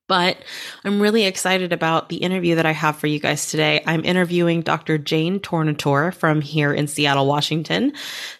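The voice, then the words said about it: Voice still not quite normal. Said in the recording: “excuse my voice. I am, getting over 2 weeks of being sick, and my voice is not quite the same still”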